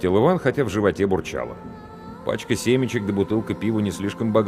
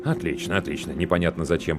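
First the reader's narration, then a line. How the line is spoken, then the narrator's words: Muttering man. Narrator (Russian): пробормотал мужчина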